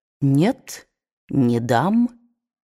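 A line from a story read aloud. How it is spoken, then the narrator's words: Soft, firm, pleased. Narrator (Russian): С нескрываемым удовольствием он мягко, но решительно произнес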